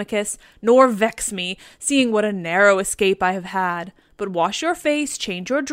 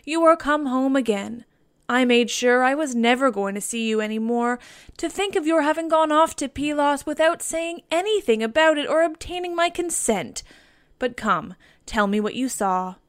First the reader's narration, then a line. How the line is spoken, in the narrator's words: she cried as she spoke fondly